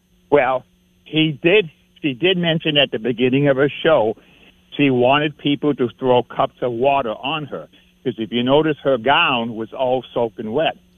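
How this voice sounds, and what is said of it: Boston accent. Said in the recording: “that's my Boston accent”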